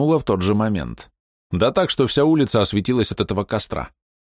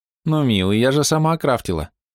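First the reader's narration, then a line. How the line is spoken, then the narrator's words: Sympathetic voice. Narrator (Russian): с сочувствующим голосом произнесла девушка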